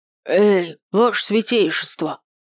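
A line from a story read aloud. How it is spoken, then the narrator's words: Loud hoarse voice. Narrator (Russian): Обратился к нам тот самый рыжий бездомный громким хриплым голосом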